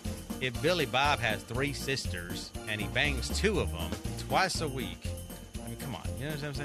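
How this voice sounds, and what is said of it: Failed attempt at redneck accent. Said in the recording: “a Hispanic guy trying to do a redneck accent is just a complete fail”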